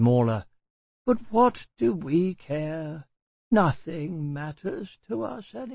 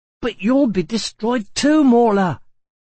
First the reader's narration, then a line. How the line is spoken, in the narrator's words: cried Atreo angrily